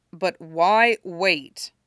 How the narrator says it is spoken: Chris says grimly

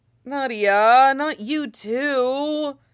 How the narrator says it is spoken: Nightwing groans

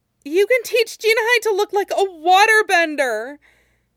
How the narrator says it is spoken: Suyin blurted out, stunned

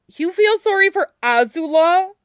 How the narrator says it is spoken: Aang exclaimed

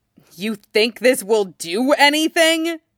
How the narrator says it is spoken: he snarls at the Deva Path

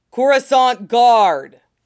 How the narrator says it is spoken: he roared, vocoder projecting his voice loud enough to be heard over the din

